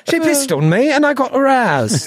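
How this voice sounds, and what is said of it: Bad put-on Cockney accent. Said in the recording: “I'm yucking your accent ... I was using the voice of someone who's into that ... bad Cockney”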